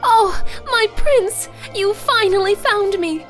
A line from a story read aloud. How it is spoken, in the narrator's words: She shouted happily